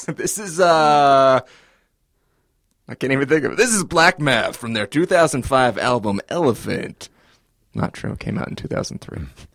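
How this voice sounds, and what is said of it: Radio announcer voice. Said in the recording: “Oh, you do have a radio voice. ... You do have a radio voice. You just did it.”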